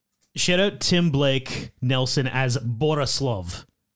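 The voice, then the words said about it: Put-on Russian accent. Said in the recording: “That's my Russian accent for you... it might be better than your French accent.”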